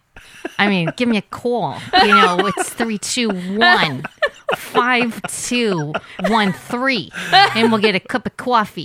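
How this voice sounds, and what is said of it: New Jersey accent like Janice. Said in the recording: “developing the accent ... you sound like a little bit like Janice from. ... Friends.”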